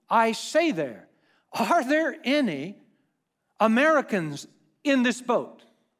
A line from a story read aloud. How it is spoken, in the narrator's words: he shouts in